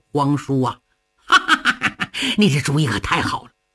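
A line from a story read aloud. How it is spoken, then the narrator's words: Hearty laughter. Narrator (Chinese): 杨广鼓掌大笑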